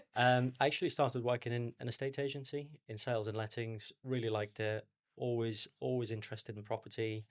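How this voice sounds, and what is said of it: Liverpool accent. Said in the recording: “in university in Liverpool, don't know if you can tell by the accent”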